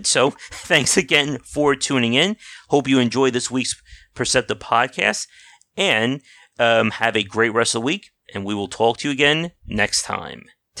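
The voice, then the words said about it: Strained, worn-out voice. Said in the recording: “my voice is just about dead”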